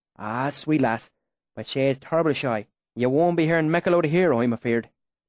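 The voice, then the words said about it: Rustic dialect in stage whisper. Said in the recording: “my sudden change in dialect ... I dropped my voice to a stage whisper.”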